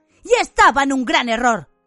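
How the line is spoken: Shouted. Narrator (Spanish): gritó Harry

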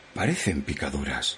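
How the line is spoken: Murmured after silent watching. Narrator (Spanish): murmuró la sirvienta después de un rato de inmóvil observación

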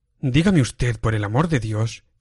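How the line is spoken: Exclaimed. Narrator (Spanish): exclamé

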